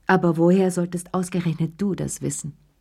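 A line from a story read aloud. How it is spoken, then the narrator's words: Firm voice. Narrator (German): sagte sie mit fester Stimme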